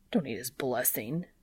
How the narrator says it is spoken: Dean mutters

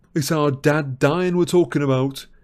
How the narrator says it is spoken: yelled George

